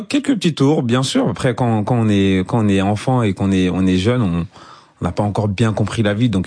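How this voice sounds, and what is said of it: Ivorian French accent. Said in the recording (French): “votre accent ivoirien ... l'accent est toujours là. On peut le sentir à tout moment”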